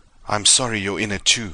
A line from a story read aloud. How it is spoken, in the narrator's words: he panted